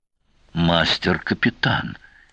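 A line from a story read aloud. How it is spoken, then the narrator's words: Frightened croak. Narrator (Russian): испуганно хрипнул субгенерал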